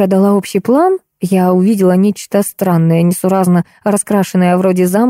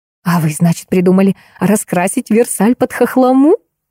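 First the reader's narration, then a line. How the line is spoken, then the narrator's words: Laughing. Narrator (Russian): засмеялась Кира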